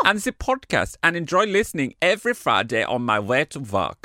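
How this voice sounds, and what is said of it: Put-on German accent. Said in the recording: “this was my best German accent ... It was terrific.”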